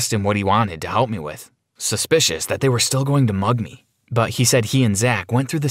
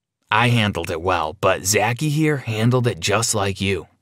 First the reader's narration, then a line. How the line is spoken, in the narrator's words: Theo said